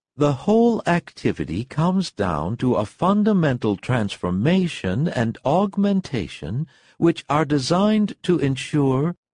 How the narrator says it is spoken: read his wife in an even voice

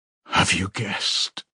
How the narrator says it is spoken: he whispered at last

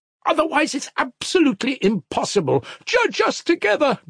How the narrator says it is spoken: Grushenka cried frantically

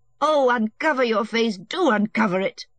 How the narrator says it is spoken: she said angrily

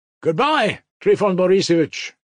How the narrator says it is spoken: Mitya shouted again, not from good nature, but involuntarily from resentment

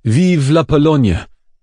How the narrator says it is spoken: The Paris lawyers who cried

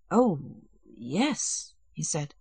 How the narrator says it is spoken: he said, glancing uneasily

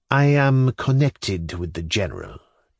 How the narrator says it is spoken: said dryly

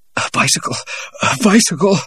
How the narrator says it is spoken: he said breathlessly to the guard

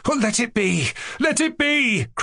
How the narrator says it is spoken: cried Mushkin

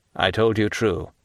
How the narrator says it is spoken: replied he coldly

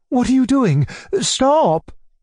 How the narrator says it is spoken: my uncle cried out

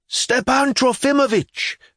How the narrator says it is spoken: the divinity student roared gleefully

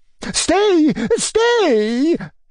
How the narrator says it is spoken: cried, in a great hurry, as though afraid I were going away

